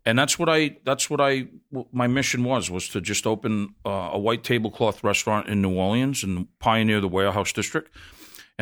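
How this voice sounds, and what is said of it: Massachusetts accent. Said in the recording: “your accent might betray, you're not from New Orleans ... this guy from Massachusetts”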